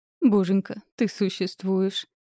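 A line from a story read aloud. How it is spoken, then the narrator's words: Moaning. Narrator (Russian): простонала Калли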